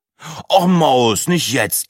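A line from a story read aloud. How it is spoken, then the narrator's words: Groaning. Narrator (German): stöhnte Breitling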